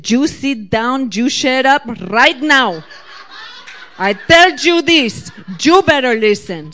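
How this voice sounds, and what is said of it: Imitated heavy Puerto Rican accent. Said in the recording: “She had a big Puerto Rican accent.”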